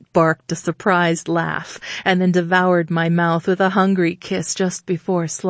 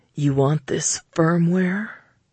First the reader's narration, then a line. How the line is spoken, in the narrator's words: His voice deepened to a reprimanding growl